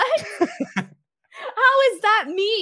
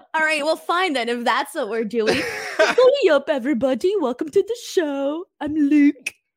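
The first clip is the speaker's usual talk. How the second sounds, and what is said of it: Imitates another person's voice. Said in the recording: “my Luke impression”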